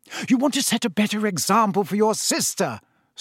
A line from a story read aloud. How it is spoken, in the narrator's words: snapped